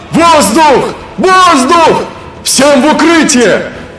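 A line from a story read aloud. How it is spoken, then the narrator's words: Full-voiced shout. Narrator (Russian): Эзраэль что есть мочи крикнул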